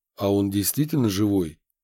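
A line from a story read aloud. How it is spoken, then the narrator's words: Plain question. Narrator (Russian): спросил Яковлев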